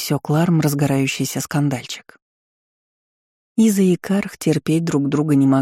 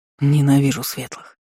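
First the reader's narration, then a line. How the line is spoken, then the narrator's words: Gritted teeth, half-elf. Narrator (Russian): процедил полуэльф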